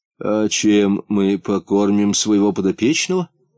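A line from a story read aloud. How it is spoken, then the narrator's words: Confused question. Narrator (Russian): растерянно спросил Лысый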